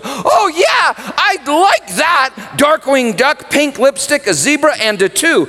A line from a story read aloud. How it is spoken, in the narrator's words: Elizabeth would squeal, she'd squeal